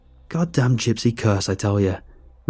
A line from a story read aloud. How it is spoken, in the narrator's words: Rudolph sneered